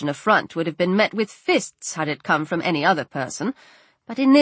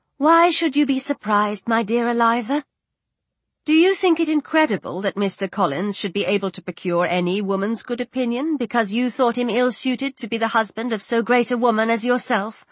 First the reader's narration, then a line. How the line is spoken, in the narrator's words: Miss Lucas calmly replied